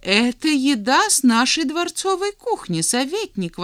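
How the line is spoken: Exclaiming. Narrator (Russian): воскликнул солнцеподобный

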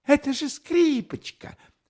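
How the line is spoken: Exclamation. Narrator (Russian): воскликнула

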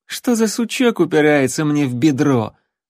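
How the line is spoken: Mocking disembodied voice. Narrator (Russian): насмешливо промолвила пустота

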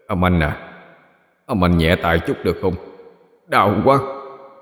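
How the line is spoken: Lowered voice. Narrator (Vietnamese): nó hạ giọng nói

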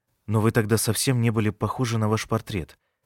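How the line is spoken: Mumbling. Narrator (Russian): Я пробормотал

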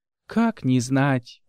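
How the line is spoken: Sighing. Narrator (Russian): вздохнула она

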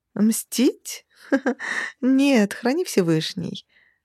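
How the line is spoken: Laughing. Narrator (Russian): рассмеялась Кассандра

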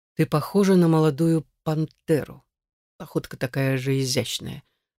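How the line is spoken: Low, slightly growling male voice. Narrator (Russian): проговорил мужчина низким и чуть рычащим голосом

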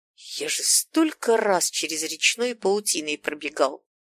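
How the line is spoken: Annoyed mutter. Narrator (Russian): С досадой пробормотал дядя Смел

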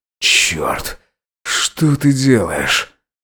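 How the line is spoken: Hoarse strained words. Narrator (Russian): Горностай выдавил из себя хриплое

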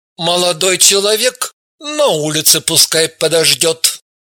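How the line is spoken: Doctor's plain request. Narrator (Russian): главврач и, строго взглянув на Евгения, попросил

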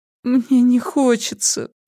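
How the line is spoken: Whining. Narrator (Russian): проскулила она

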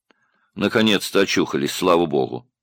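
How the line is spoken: Indifferent. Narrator (Russian): равнодушным голосом сказал человек

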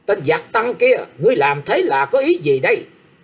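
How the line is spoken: Harsh loud scolding. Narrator (Vietnamese): Trịnh Phẩm Mai gằn giọng nạt to rằng

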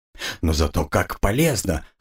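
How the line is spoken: Short laugh. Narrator (Russian): хохотнул Гарольд

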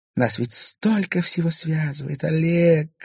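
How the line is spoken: Purring into ear. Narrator (Russian): промурлыкала она ему на ухо

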